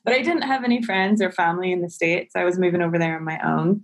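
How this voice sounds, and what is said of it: Northern Irish accent. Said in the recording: “I'm originally from Northern Ireland, if the accent didn't give me away”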